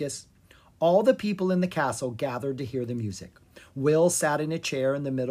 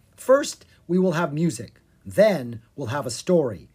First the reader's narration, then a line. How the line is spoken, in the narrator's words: Will said